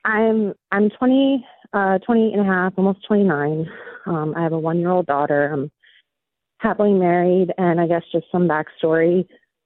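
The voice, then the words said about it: Nervous, shaky voice. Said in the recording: “I'm a little bit nervous. My voice is a little shaky.”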